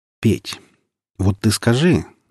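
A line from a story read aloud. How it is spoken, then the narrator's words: Hesitant. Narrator (Russian): начал неуверенно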